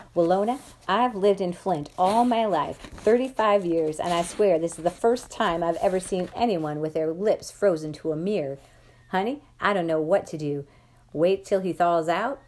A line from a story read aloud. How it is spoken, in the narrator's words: Dad stopped laughing long enough to say